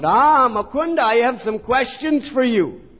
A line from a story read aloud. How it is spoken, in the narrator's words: Nimai called out